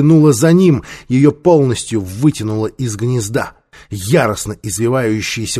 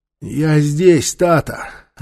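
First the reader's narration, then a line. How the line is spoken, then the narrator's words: Weak trembling voice. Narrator (Russian): отозвался Нефер слабым и дрожащим голосом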